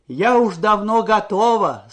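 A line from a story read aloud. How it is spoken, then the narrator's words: Plain. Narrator (Russian): сказала она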